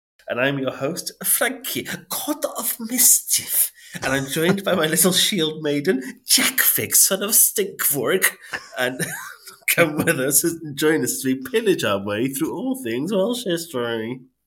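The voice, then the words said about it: Viking character voice. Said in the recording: “my Floki impression? ... It was good. ... Viking”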